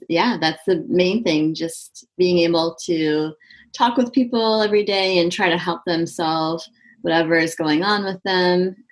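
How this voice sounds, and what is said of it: Neutral Midwestern American accent. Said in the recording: “is from Michigan, which is in the Midwest of the United States. And that accent is considered to be a very neutral accent. And in fact, is the accent that is used on television for reporting the news. So hopefully you could understand that very clearly.”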